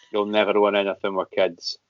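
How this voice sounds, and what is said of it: Flat, wooden West Coast impression. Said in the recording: “a wooden Ian Mackey is how you do an Alan Hansen impression ... It sort of went a little bit more West Coast. A wooden Ian Mackey is probably when I talk quite slowly, betray no emotion”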